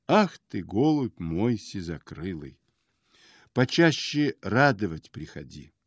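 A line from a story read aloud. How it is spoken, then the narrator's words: Warm, tender old man. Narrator (Russian): Старец Варнава, поулыбался так хорошо и сказал ласково так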